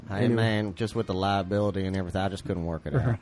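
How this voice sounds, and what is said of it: Imitates another person's voice. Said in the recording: “I'm doing my imitation of your imitation”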